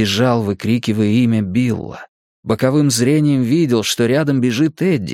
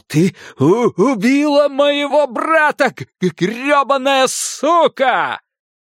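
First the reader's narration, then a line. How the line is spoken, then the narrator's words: Screaming. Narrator (Russian): Билл прокричал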